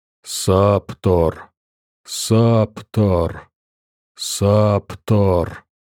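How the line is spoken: Repeated whisper in head. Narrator (Russian): шепота в голове, который постоянно повторяет

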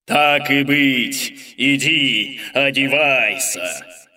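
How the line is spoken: Roared. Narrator (Russian): взревел горный король

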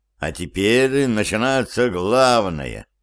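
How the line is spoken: Relieved sigh. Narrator (Russian): Стив облегченно вздохнул

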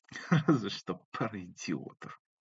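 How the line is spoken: Quiet snort. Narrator (Russian): тихонько фыркнула Али

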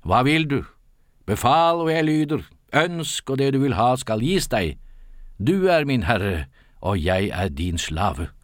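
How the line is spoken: Spirit calling out. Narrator (Norwegian): ånden … ropte

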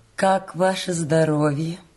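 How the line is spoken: Old woman asking. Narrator (Russian): Приятная старушка ... спросила

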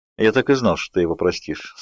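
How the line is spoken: Calm, smiling. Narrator (Russian): спокойно улыбнулся Эдвард

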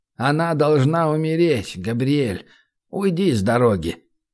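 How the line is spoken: Quiet. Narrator (Russian): тихо произнес приор

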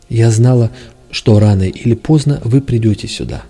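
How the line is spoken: Exclaiming. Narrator (Russian): воскликнула она

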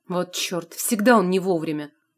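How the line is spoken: Vexed. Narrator (Russian): подосадовал Илья

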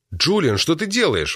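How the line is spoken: Bewildered exclamation. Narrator (Russian): воскликнул в недоумении

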